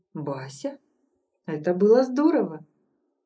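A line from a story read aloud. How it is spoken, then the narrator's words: Soft ingratiating voice. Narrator (Russian): Мягко так, вкрадчиво, ласкала слух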